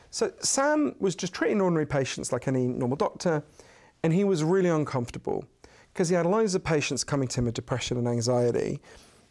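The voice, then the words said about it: British English accent. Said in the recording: “as you can tell from my weird Downton Abbey accent”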